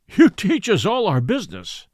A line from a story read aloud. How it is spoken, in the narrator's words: cried